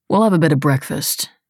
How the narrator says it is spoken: he said

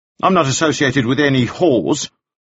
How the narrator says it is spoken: Fellows said sharply

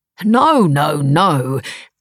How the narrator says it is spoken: said the talk show host, very loudly

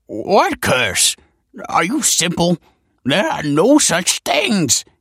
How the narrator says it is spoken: yelped the scholar

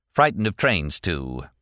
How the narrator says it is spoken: Martin said gloomily

